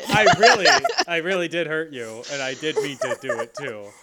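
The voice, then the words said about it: Zac Efron impression. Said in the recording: “a really great Zac Efron impression”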